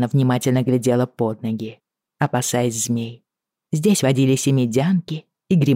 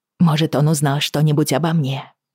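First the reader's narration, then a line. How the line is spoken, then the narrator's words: Hoarse. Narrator (Russian): сипло сказала Бриана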